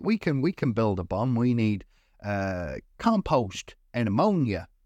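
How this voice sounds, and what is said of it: Put-on Alabama Southern accent. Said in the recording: “she doesn't have this accent. I don't know why I'm doing it. ... good old Alabama.”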